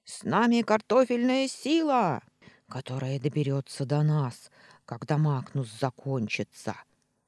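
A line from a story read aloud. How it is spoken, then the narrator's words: Pessimistic grumble. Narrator (Russian): Пессимистично проворчал Вальдемар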